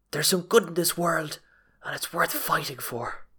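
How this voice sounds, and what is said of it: Imitates a film character's voice. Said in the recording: “That was a good impression”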